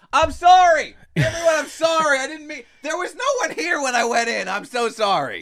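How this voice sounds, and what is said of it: Yelling frantic apologies. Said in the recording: “I'm yelling”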